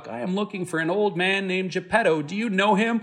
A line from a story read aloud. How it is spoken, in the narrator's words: Pinocchio called out